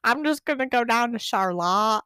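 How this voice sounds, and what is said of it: Put-on Michigan accent. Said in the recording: “everybody with a Michigan accent's like”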